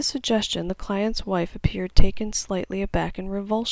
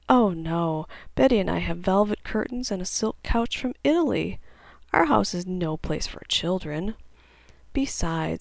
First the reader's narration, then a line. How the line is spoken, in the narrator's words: Alan, in his fake vibrato laugh, simply said